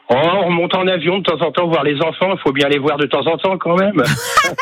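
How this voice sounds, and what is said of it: Northern French Ch'ti accent. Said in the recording (French): “l'accent... je suis un ch'ti, moi... On a les fins de phrase un petit peu qui seraient très”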